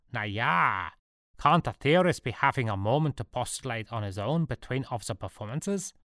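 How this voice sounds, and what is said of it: Caricature German accent. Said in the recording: “a caricature German accent call out”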